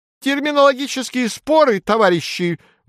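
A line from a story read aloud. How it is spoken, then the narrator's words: Sudden high-pitched exclamation. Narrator (Russian): восклицает вдруг высоким голосом Плешивый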